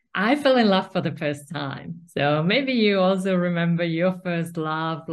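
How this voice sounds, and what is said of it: Finnish-accented English. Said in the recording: “I was living in a small village in Finland, so that's where this accent is from.”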